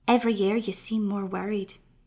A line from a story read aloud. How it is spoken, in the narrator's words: Deirdre whispered